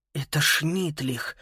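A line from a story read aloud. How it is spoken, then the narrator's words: Whisper. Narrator (Russian): прошептал Макс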